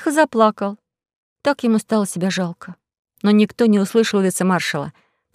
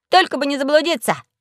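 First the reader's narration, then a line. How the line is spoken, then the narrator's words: Shout. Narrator (Russian): крикнул Пашка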